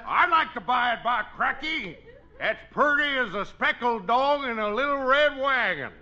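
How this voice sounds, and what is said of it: Put-on lousy dialect. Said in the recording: “It's a lousy dialect, but that's the way I like to hear you talk.”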